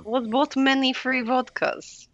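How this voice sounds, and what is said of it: Put-on Russian accent. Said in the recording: “I can do Russian ... talking like this”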